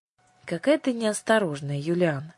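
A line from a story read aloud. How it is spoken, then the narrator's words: Gentle reproach. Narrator (Russian): мягко упрекнула ее Ясмин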